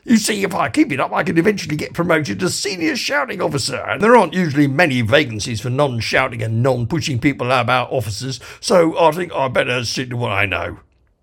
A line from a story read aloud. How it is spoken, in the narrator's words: bellowed the guard